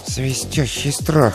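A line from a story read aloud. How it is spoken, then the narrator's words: Muttered. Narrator (Russian): пробормотал он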